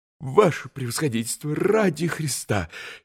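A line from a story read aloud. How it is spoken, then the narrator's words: Frightened interruption. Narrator (Russian): испуганно остановил его еще раз штабс-капитан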